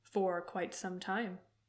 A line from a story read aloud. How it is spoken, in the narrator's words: Zuko said